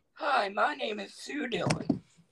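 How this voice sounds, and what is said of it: Put-on comic character voice. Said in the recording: “Do your Stillin voice... It's a impression that her and Madison do around the house, and they fight back and forth with this voice. It's called Sue Dillon... Say something in Sue Dillon.”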